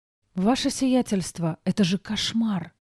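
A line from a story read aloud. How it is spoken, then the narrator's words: Whisper. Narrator (Russian): прошептала Диана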